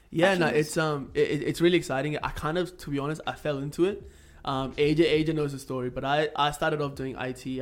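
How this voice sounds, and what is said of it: Mixed Indian-Australian accent. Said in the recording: “I'm full purebred Indian. I moved to Australia when I was 11, hence why my accent is this weird fucked up mess of God knows what.”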